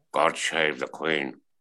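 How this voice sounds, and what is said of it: Imitates another person's voice. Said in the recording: “my Sean Connery impression.”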